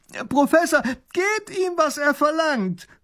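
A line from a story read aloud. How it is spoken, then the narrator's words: Child calling out. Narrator (German): ruft der kleine Großherzog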